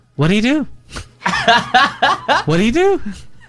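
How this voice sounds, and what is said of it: Impression of a street interviewer. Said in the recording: “Let me do an impression.”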